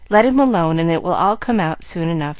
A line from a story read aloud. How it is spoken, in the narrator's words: answered Frank, who laughed at his brother